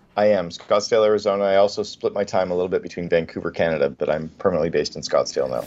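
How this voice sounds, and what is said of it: Canadian accent. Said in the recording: “we can hear your Canadian accent”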